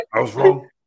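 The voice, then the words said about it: Deep-voiced Shawn Michaels impression. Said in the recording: “That's my deep voice, Shawn Michaels.”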